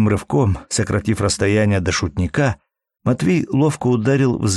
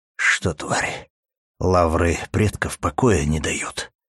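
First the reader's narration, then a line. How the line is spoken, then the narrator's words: Hiss. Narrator (Russian): прошипел Матвей, даже не думая стереть с лица оскал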